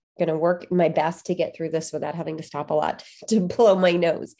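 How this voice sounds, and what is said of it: Nasal, congested voice. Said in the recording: “Bit of a cold today. I'm sorry if I sound really nasally.”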